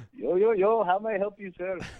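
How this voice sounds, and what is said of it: Put-on Indian accent. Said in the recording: “maybe I should be doing the Indian accent?”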